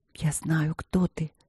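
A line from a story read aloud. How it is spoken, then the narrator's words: Whisper. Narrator (Russian): прошептала она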